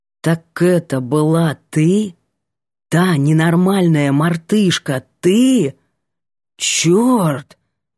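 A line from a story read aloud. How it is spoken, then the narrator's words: Exhaled words. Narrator (Russian): Выдохнул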